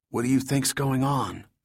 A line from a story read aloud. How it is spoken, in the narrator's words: Mark asked in a whisper